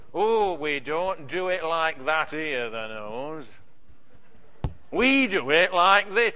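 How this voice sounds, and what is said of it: Put-on Yorkshire accent. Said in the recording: “I always lapse into a Yorkshire accent. It's probably the only one that I can do.”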